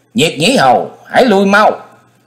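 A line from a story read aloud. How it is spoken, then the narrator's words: Cold snort, shouted. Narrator (Vietnamese): Hắc Diện Thần Trùng hừ một tiếng lạnh lùng, thét vào mặt của đối thủ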